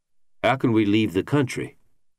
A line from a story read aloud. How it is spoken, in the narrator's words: Beach asked